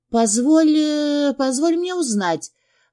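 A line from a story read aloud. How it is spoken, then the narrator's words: Breathless, in one breath. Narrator (Russian): выдохнула на одном дыхании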